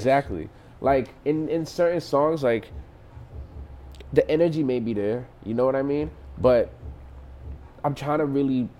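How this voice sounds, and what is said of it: New York accent. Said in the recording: “I can hear your New York accent.”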